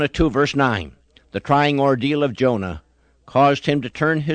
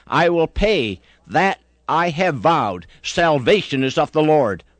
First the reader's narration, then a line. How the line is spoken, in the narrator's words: he cried